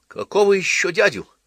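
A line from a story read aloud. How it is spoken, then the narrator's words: Indignant exclamation. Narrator (Russian): С негодованием воскликнул Половинкин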